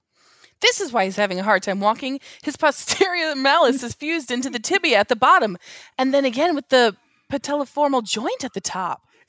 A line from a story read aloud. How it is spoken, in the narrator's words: shocked at what she discovers and blurts out